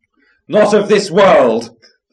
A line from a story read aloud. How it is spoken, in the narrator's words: the polecat cried